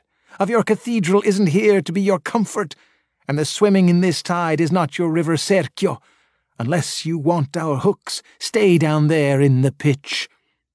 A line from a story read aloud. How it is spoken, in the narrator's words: they cried